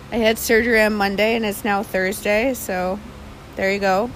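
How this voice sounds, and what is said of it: Slightly altered, strained voice. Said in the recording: “that's why my voice sounds a little bit different, because of that”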